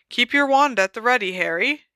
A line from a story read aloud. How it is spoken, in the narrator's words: he said brightly